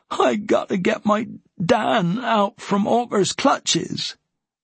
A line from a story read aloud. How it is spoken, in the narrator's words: His voice broke as he insisted